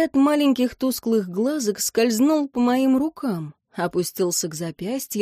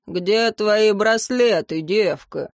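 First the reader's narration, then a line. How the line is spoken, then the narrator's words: Growled. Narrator (Russian): рыкнул он, обдавая меня запахом перегара и чеснока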